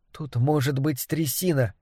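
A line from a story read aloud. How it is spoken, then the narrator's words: Mutter. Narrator (Russian): пробормотала Триша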